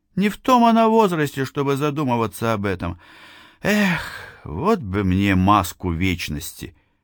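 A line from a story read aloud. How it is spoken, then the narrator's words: Sad voice. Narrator (Russian): произнесла грустным голосом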